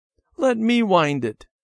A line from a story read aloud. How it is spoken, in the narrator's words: Debbie begged